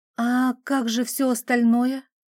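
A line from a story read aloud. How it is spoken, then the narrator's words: Forced out after a sigh. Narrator (Russian): глубоко вздохнув, все же выдавила из себя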